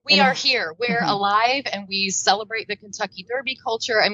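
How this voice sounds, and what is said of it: Southern American accent. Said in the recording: “you had the Southern accent going”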